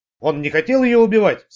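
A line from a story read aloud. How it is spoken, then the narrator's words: Plain. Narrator (Russian): сказал он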